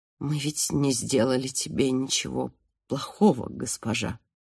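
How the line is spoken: Group muttering. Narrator (Russian): забормотали они

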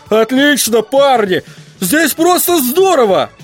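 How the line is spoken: Shout. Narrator (Russian): он закричал

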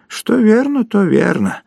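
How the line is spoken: Sighing. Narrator (Russian): вздохнул Горбовский

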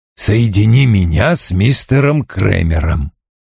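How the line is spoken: Calm. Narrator (Russian): Вульф спокойно сказал

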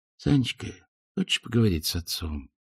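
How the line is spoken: Soft, friendly, confiding. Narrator (Russian): тихонько, дружески, доверительно спросил

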